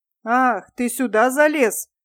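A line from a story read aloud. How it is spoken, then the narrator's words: Menacing. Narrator (Russian): грозно сказала она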